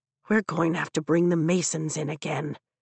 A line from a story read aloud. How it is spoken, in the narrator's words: Dane mutters